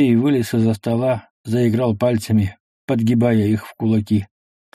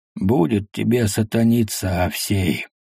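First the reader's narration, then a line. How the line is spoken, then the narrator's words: Weary speech. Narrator (Russian): проговорил цыган устало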